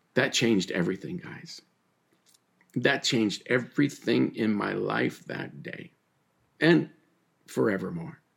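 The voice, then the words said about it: Choked up, emotional voice. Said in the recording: “I still get a little choked up”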